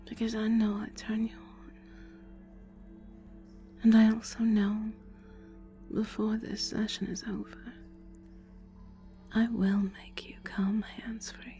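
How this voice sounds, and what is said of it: Sexy, seductive voice. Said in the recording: “my sexy voice”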